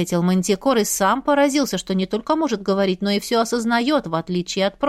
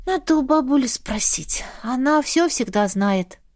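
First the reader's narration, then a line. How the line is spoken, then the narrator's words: Resigned sigh. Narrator (Russian): вздохнула, уже предвидя взбучку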